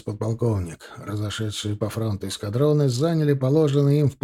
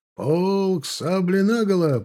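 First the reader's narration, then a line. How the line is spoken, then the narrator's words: Shouted. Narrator (Russian): прокричал Подлуцкий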